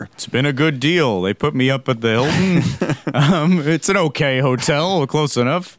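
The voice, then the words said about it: Imitates another person's voice. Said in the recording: “that's best I could do a Donald Sutherland impression”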